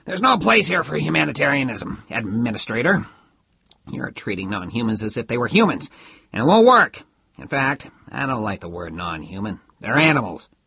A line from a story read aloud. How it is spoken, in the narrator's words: He continued roughly